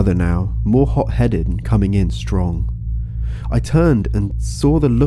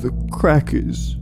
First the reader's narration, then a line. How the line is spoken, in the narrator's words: said, his voice breaking